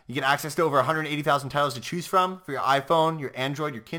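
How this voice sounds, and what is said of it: Usual voice. Nothing is said of it.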